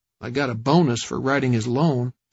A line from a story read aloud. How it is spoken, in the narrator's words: Streeter muttered